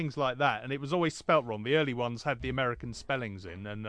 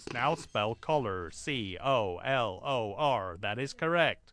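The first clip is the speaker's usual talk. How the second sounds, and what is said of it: Strangled robotic American speech-synthesizer voice. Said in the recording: “American accent ... it sounded a bit like, um, I don't know, say Stephen Hawking was being throttled”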